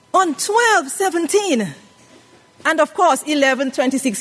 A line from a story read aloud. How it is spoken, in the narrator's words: he cried